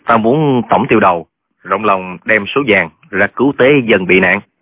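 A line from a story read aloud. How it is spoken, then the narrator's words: Scornful sneer. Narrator (Vietnamese): Trương Thúy Sơn cười khẩy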